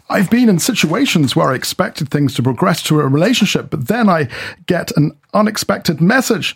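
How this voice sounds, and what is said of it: Voice rising in pitch. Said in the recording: “my voice went up there. I was trying to be that guy.”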